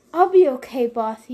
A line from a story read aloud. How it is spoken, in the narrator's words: he panted